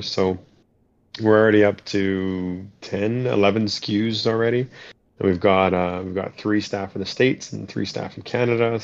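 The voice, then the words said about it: Canadian English accent. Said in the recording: “I'm Canadian, in case anyone didn't know, from my goofy accent.”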